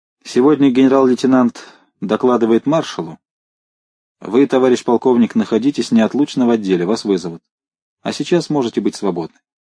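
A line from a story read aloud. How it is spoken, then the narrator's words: Displeased voice. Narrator (Russian): Быков недовольным голосом сказал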